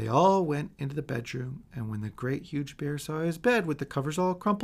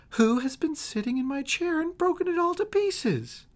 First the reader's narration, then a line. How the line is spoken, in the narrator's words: the tiny wee bear squealed in his tiny wee voice